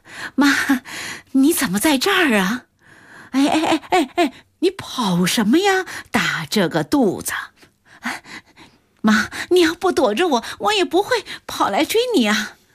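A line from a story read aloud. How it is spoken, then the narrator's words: Exhausted panting. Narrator (Chinese): 胡谷月累得直喘气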